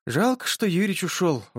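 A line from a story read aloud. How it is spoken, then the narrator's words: Sigh. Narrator (Russian): вздохнула Соня Казадоева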